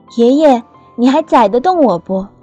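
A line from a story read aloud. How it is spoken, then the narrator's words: Loud question over wind. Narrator (Chinese): 在风里，我隔着他厚厚的皮帽子大声地问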